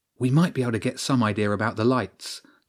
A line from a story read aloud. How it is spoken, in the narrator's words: James whispered